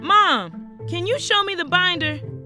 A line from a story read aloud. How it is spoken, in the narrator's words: I shouted into the other room